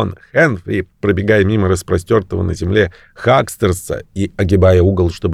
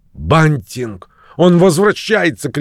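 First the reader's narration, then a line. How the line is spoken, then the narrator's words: Shouted. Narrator (Russian): крикнул он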